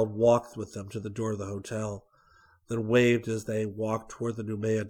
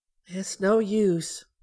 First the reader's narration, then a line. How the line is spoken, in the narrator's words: Barbie sighed